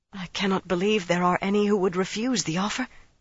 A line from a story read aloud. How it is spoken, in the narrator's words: she said breathlessly